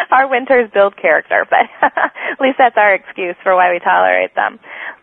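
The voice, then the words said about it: Minnesota accent. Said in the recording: “my Minnesota accent”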